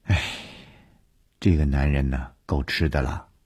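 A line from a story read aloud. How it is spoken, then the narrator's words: Sighing. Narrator (Chinese): 吕小亚叹了一口气说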